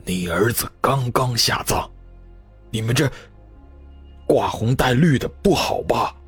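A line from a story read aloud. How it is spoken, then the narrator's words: Old man, low, angry. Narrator (Chinese): 那丙老爷子怒气冲冲的低声道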